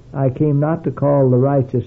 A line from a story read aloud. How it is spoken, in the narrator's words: said